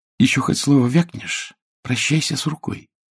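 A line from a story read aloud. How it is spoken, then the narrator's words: Threatening whisper. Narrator (Russian): прошептала она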